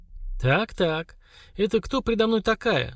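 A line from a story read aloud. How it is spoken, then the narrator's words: Mocking question. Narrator (Russian): насмешливо спросила Лера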